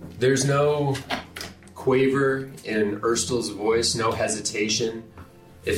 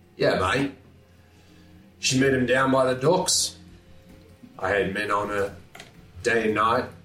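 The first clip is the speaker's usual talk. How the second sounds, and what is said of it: Slight Australian accent. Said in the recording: “I was slipping into a bit of an Australian accent.”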